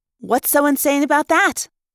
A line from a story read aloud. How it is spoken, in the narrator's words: Rachel asked sharply